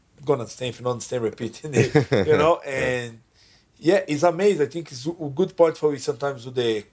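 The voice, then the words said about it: Strong non-native English accent. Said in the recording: “I still very strong accent... My accent's very strong”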